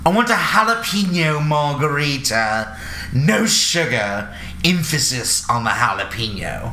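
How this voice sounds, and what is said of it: Put-on British accent. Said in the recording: “I use a British accent because he had one”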